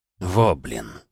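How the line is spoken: Worried muttering. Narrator (Russian): озабоченно пробормотал Хусрулин

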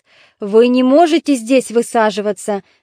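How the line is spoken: Shouting. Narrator (Russian): закричал Дикеарх

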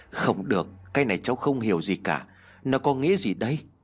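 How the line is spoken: Sighing woman. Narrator (Vietnamese): Lý lau mồ hôi, cô thở dài nói

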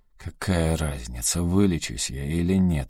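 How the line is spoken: Hoarse. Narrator (Russian): хрипло ответил Энда

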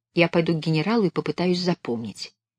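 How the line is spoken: Whispered. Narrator (Russian): Белка прошептала

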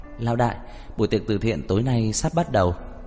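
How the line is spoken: Smiling, familiar. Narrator (Vietnamese): mỉm cười nói

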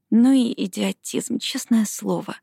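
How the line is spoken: Muttering under breath. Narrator (Russian): пробормотала она себе под нос

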